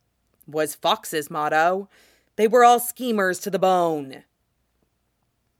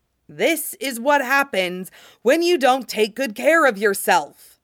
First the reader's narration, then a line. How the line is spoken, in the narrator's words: Thier roared